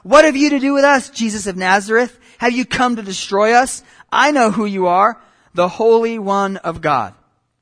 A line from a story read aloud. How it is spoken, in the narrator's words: a man with an unclean spirit, and he cried out